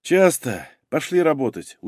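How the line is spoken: Tired. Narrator (Russian): устало сказал Юра

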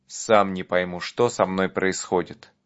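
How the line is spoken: Clear and calm. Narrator (Russian): вполне внятно и спокойно сказал

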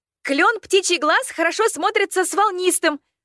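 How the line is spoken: Desperate near-shout. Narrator (Russian): Практически выкрикнула я, как если бы крик мог помешать его слезам выплеснуться наружу

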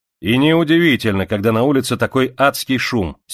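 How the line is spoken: Angry. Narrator (Russian): сердито сказал Галли

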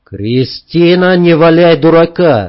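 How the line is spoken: Barking. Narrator (Russian): рявкнул Саня

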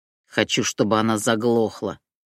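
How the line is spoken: Growling. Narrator (Russian): прорычала нубийка

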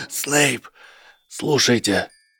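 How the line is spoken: Rasping. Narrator (Russian): прохрипел профессор Квирл

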